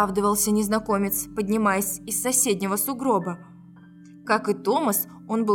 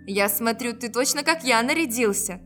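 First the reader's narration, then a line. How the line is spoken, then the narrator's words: Laughing. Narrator (Russian): рассмеялся Томас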